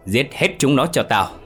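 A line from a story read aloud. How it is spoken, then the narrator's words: Shouting even louder. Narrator (Vietnamese): Tên áo đen khi đó lại càng hét to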